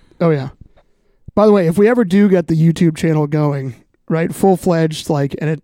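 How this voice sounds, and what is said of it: Usual voice. Nothing is said of it.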